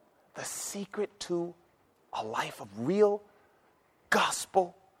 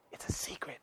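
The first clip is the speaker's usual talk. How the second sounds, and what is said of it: Whispering. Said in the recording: “Do you hear me whispering?”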